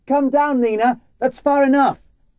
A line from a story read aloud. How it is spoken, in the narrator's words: I knew she could fall at any moment, and I shouted